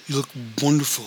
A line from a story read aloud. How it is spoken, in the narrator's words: he said